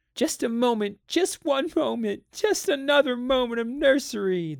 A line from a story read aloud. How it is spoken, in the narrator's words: they wailed